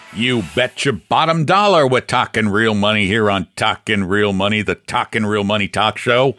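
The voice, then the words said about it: Jersey-ish carnival barker wise-guy accent. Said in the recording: “It's kind of a carnival barker sort of thing ... Maybe a bit of a wise guy ... A little carnival barker, a little wise guy. Kind of okay. Jersey-ish.”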